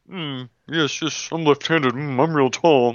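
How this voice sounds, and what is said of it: Imitates another person's voice. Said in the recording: “my impression of my brother ... My brother sounds nothing like that, or even does his phrasing like that.”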